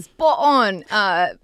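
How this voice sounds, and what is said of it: Put-on British accent. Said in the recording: “That's British ... not Floridian”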